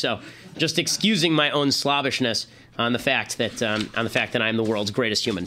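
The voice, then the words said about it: Hoarse, partly lost voice. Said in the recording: “my voice is still a little bit gone”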